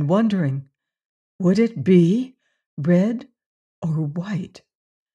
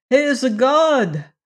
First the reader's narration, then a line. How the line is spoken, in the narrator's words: cried a voice far away